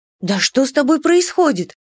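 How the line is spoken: Anxious question. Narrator (Russian): взволнованно спросила я

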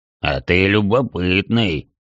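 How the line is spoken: Chuckling. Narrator (Russian): хохотнул гробовщик

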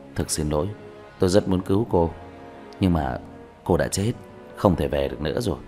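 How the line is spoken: Sighing, gentle. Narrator (Vietnamese): Diệp Thiếu Dương thở dài, nhẹ nhàng nói

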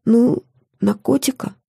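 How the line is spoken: Quiet reply. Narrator (Russian): тихо ответила я

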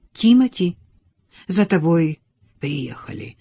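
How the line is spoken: Hoarse announcement. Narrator (Russian): хрипло объявила Эллен

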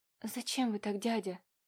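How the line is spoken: Tearful whisper. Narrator (Russian): чуть не плача прошептала Катюша

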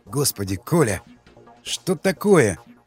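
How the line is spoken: Muttering. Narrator (Russian): пробормотал Ермаков

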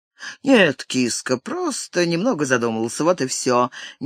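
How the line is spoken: Tender, smiling. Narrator (Russian): нежно улыбнулся ей Терри

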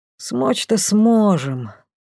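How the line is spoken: Thoughtful drawl. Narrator (Russian): задумчиво протянул Лей

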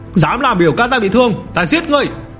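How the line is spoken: Roar. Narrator (Vietnamese): Chu Trung Mậu gầm lên

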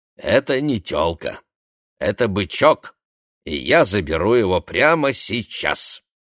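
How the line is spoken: Plain. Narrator (Russian): сказал Сойхер

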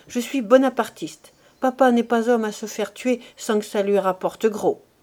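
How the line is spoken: Exclaiming. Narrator (French): s'écria-t-il

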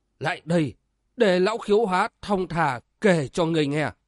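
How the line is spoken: Sigh. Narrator (Vietnamese): Túy Cái thở dài

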